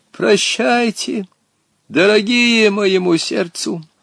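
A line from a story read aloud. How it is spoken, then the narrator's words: Tearful, sepulchral voice. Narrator (Russian): Он заплакал, гробовым голосом сказал им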